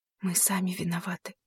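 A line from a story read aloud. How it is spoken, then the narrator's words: Whispered. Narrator (Russian): прошептала она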